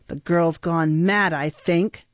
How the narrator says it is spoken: replied Sykes savagely

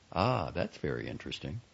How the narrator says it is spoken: looking calmly at Eileen, he would say

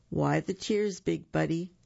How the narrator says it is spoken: With a sniffle and a snuffle, two more tears for good measure, Buford moaned

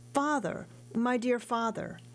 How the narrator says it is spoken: The old man cried out

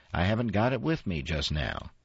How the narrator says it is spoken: he snapped

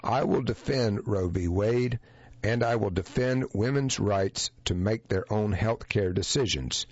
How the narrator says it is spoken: Clinton said flatly

